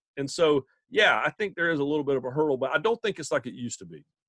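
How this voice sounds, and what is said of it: Thick Southern US accent. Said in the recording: “people think the accent is fake ... tone it down just a little bit ... You think my accent's thick?”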